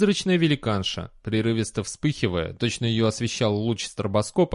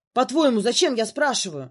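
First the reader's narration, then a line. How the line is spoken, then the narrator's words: Shouted. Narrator (Russian): прокричала она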